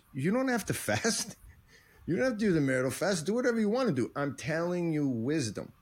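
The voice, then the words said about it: New York accent, rabbinical-sounding. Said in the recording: “with your accent, your priest suddenly becomes very Jewish. ... this is my New York thing that comes out whenever I get excited. ... He was very rabbinical.”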